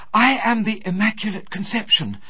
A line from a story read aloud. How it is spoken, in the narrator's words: she burst into the room, and without any greeting, panted